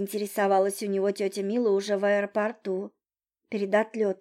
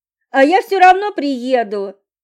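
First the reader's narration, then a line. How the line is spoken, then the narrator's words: Shouting. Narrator (Russian): крикнул Максим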